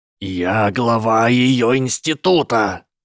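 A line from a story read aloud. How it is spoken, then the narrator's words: Growl. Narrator (Russian): зарычал Ричард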